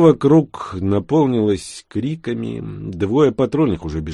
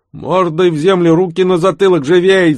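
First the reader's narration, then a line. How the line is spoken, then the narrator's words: Yelling. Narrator (Russian): заорал старший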